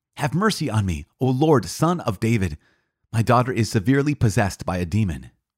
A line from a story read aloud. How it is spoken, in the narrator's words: a Canaanite woman from that region came out and cried